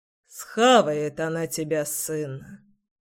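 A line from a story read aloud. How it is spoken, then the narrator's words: Sighing, gloomy. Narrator (Russian): вздохнул папка, мрачно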